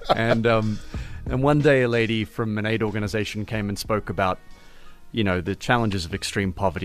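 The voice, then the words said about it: Australian accent. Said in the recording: “I grew up in Melbourne, Australia, as you can probably hear from my accent.”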